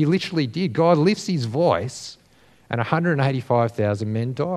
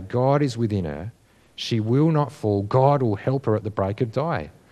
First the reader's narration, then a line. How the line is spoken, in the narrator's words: the psalmist can calmly say